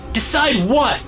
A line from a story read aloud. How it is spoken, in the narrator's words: I shout, old man